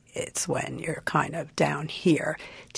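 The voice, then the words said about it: Low croaky vocal fry. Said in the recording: “the glottal fry, also known as the vocal fry, demonstrated for us ... drop down into this croaky frog-like sound”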